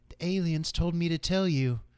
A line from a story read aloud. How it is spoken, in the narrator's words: in an ominous voice